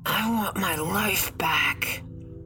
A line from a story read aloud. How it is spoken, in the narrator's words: the dead boy said in a raspy whisper